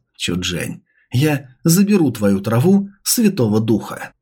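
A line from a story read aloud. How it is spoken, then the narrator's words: Muttered. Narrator (Russian): пробормотал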